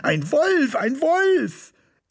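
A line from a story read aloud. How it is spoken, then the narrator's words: Continued screaming. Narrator (German): Ich schrie weiter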